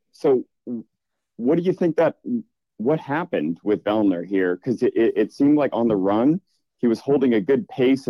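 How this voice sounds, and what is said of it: Boston accent. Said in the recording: “This is a so Canadian, isn't it? I can hear. I can hear an accent ... you're hearing a Canadian accent. Well, I'm from Boston”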